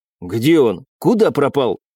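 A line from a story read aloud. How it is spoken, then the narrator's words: Surprised exclamation. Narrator (Russian): удивленно воскликнул лидер троицы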